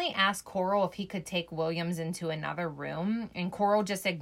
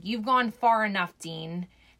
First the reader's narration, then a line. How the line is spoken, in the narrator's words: He started shouting